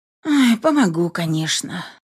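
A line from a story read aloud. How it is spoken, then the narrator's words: Sighing. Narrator (Russian): вздохнула я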